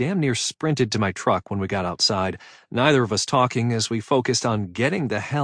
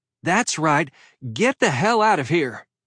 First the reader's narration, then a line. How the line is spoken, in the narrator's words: she did manage to yell